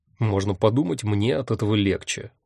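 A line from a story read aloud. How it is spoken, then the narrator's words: Grumble. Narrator (Russian): буркнул я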